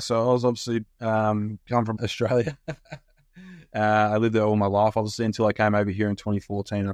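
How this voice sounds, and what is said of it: Strange Australian-influenced accent. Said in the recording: “you have a very strange accent”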